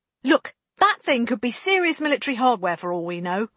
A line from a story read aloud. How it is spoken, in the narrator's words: Lane snapped